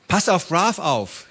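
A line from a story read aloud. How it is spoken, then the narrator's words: Called out. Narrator (German): rief sie Baba zu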